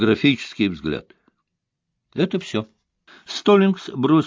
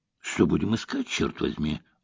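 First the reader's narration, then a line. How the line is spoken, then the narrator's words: Gruff grumble. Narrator (Russian): буркнул воин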